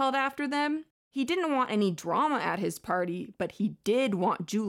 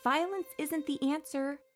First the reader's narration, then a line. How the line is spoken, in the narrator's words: Loosely added meekly